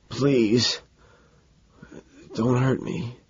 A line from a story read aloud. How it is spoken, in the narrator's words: After a silence, he croaks